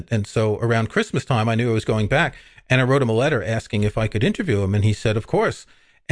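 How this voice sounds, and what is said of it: New York accent. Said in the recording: “I grew up in New York, as you can tell from my accent.”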